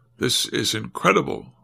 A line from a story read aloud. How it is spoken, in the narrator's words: one of the leadys interrupted him coldly